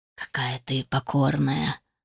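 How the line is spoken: Whispered. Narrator (Russian): прошептал он

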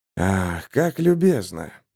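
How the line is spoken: Through gritted teeth. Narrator (Russian): процедил Марк

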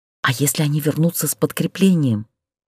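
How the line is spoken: Whispered. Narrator (Russian): опять прошептала Люся

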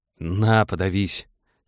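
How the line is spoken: Irritated. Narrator (Russian): Олег раздраженно

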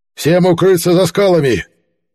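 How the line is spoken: Shouted command. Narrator (Russian): выкрикнул король

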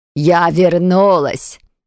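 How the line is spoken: Loud gruff bark. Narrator (Russian): гаркнула троллиха

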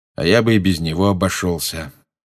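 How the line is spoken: Gloomy, muffled. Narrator (Russian): мрачно сказал Люпин из-за своей книги

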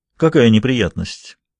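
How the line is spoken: Cold. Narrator (Russian): произнесла она холодно

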